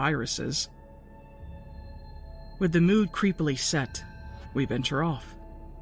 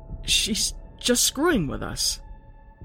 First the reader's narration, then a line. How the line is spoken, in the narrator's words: I stutter out